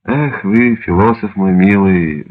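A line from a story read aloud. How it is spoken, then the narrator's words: Sigh. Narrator (Russian): вздохнул Штирлиц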